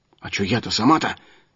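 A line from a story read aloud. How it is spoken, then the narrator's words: Little man muttering. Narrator (Russian): пробормотал мужичок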